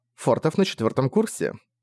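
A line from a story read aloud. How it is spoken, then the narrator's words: Stern mother. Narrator (Russian): строго сказала мать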